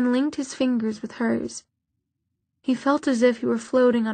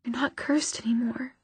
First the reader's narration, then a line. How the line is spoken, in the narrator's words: she whispered